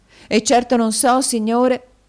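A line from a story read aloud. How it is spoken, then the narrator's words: Woman's exclamation. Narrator (Italian): esclamò la signora Kenwigs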